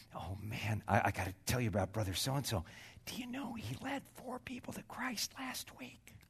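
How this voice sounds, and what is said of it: Lowered, whispering voice. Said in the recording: “lowered your voice ... why are you whispering?”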